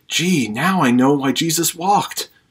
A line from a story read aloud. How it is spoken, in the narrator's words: Twain, in disbelief, whispered to his wife